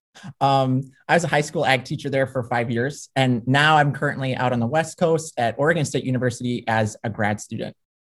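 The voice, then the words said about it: Mild Minnesota accent. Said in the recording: “I originally from Minnesota, if you can't tell from my accent a little bit ... My long O's and my E sounding A's”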